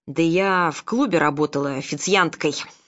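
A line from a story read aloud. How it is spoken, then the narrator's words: Snorting. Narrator (Russian): фыркнула она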